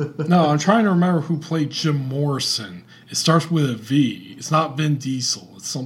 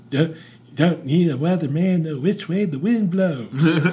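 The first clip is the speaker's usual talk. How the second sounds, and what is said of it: Imitates another person's voice. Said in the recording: “It's an impression of Ray Manzarek. Doing an impression of Bob Dylan.”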